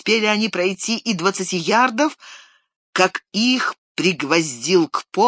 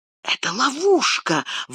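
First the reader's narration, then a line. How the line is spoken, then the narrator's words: Breathed-out exclamation. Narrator (Russian): выдохнул Сэм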